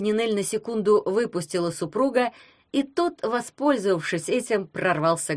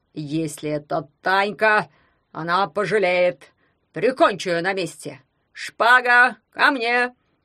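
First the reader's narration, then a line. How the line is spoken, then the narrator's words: Belligerent growl. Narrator (Russian): Воинственно зарычал потомок графа Дракулы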